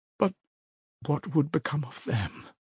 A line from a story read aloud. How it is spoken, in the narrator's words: Sonya asked faintly